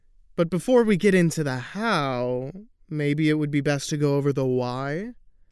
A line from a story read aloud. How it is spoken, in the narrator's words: The kid sighed as if he was being forced to repeat previously discussed information to a much older, much dimmer person